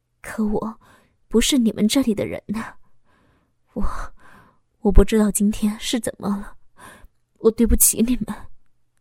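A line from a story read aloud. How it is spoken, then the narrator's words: Sighing. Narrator (Chinese): 老公叹息了一声，说道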